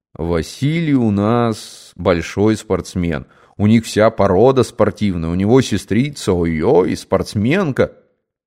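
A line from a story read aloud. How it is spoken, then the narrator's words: Deep bass voice. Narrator (Russian): Чашкин забасил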